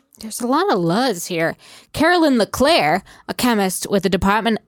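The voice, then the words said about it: Put-on Boston accent. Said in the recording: “Don't do the Boston accent. It's gross... It sounds uneducated.”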